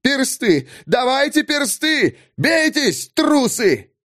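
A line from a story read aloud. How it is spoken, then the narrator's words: Hateful yelling. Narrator (Russian): вопили с ненавистью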